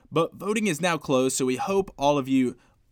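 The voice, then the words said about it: Attempted Australian accent. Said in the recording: “Was my Aussie accent okay there? ... I was pretty impressed ... That was terrible! How could you butcher it so badly?”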